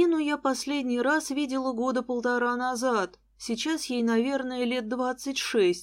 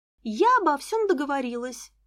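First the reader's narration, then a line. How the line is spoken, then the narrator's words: Joyful. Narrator (Russian): радостно сообщила Лиза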